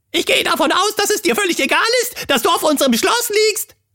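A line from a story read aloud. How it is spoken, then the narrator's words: Squeaky trembling excited voice. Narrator (German): piepste, zitternd vor Aufregung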